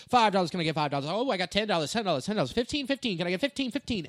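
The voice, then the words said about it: Fast auctioneer chant. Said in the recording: “auctioneer voice”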